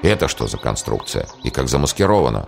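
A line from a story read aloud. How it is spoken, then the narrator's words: Muttering. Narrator (Russian): бормотание Аслан Гирея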